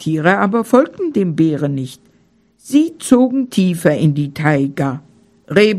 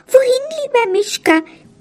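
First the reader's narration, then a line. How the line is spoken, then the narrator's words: Squeaky dormouse voice. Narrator (German): piepste die Haselmaus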